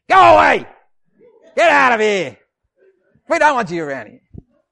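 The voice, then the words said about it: Loud, scary shouting voice. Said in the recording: “You've got to use a scary voice to scare off the wolves”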